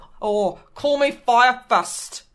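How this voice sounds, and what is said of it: Put-on New Zealand accent. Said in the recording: “I love the Kiwi accent”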